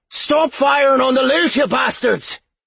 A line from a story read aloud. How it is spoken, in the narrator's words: he shouted